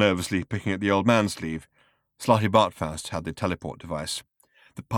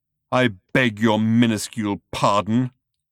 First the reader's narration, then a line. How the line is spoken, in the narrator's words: roared Thor